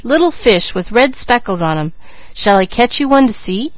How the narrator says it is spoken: he cried

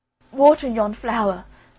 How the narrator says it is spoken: cried the boy in despair

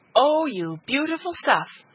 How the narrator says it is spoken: she cried

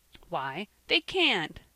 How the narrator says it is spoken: said Van, in an emphatic voice, frightened to death at his tears

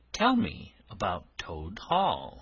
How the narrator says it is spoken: said

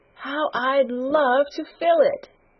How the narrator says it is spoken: she exclaimed

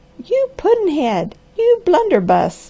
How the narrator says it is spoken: cried Granny

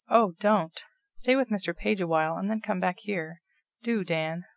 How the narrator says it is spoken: pleaded Nat, much affected at the whole affair

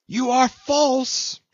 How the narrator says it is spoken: she screamed

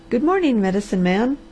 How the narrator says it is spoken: the blue-eyed nurse met him and cried gaily

